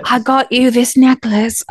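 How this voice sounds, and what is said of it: Put-on Northern British accent. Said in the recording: “I don't know what accent I'm doing. Those Northern and British accents.”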